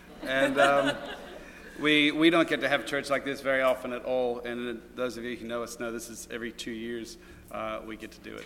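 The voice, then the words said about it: Australian accent. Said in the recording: “We live in the northern, very remote northern part of Australia, and which is where the funny accent comes from. I just heard it come out.”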